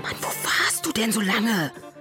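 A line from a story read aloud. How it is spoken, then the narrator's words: Whispered. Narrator (German): flüsterte Tari Lenja zu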